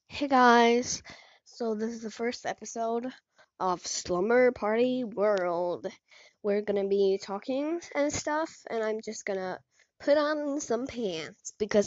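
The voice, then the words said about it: Sick, bad-sounding voice. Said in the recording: “Sorry for my voice sounding very, very bad. I am just very sick”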